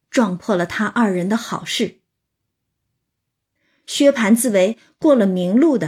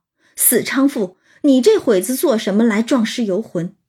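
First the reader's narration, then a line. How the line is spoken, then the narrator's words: Angry. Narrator (Chinese): 对薛蟠来说，这到嘴的鸭子又飞了，他怎能不怒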